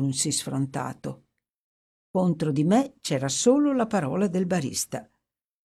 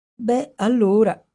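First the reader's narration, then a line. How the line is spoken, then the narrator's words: Plain. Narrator (Italian): disse infine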